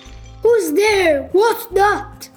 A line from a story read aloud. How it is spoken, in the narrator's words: shouted Mr